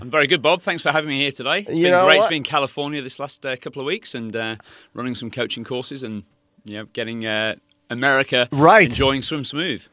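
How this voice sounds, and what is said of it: British accent with Australian influence. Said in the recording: “It's a British guy, right? ... Originally, but now I've been in Australia for the last 15 years. ... So I can tell. ... If my accent sounds a little bit funny”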